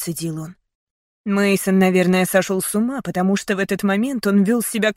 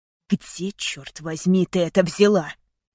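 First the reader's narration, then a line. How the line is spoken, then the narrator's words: Angry, through clenched teeth. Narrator (Russian): Зло процедил он сквозь зубы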